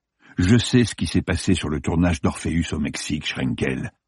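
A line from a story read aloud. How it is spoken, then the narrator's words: Cold retort. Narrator (French): lança Martin froidement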